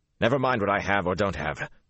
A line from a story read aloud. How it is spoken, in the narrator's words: Rand snapped